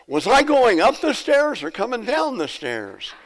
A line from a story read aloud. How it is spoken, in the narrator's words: the 94-year-old, she yells